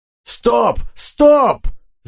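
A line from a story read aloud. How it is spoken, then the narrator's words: Urgent shouting. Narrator (Russian): закричал Банкс механику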